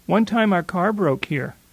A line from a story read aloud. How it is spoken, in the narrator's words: she says